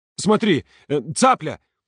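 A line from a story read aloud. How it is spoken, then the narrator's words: Shouted. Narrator (Russian): крикнул он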